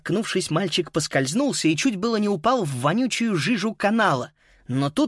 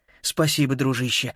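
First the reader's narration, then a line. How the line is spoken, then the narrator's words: Relieved sigh. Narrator (Russian): с облегчением вздохнул тот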